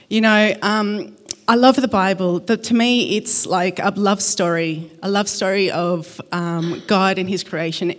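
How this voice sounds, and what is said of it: Shaky, nervous voice. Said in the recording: “my voice is a bit shaky. I am nervous”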